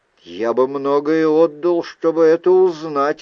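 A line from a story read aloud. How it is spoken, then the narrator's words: Plain. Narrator (Russian): ответил я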